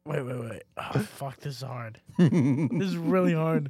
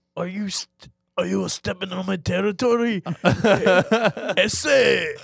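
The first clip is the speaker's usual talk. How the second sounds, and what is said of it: Japanese cholo character voice. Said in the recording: “do an impression of a Japanese cholo”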